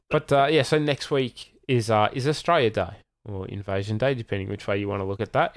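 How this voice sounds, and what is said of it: Australian accent. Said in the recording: “we're recording from Australia, as you can tell by our accents.”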